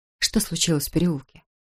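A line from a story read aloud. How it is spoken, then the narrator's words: Calm. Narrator (Russian): спокойно проговорил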